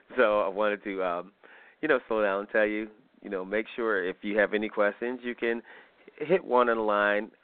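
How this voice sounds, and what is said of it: Deeper voice, slightly sick. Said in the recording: “my voice is a little deep, I was still a little under the weather”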